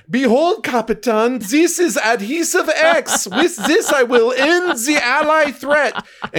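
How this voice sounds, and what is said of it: Deliberately bad German accent. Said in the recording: “bad German accent”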